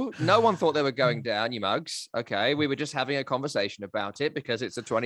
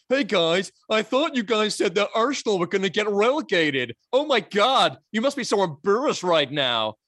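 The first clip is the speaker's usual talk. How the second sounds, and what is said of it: Imitates another person's voice. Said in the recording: “I'm doing your impression.”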